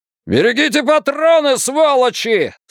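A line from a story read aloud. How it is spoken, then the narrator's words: Yelling. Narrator (Russian): заорал лейтенант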